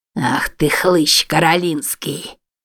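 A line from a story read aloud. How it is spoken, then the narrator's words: Growled. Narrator (Russian): прорычал он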